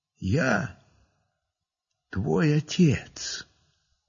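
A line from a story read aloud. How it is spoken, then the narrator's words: Quiet. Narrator (Russian): Я ему и говорю так же тихо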